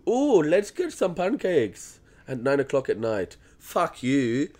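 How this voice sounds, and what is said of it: Attempted European accent, sounds Indian. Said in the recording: “what accent was that? ... I was trying to be European, but it sounded like ... Indian? ... More Indian. ... that was fucked”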